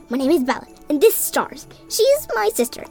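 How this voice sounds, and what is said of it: Hyper, excitable character voice. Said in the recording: “in a hyper voice”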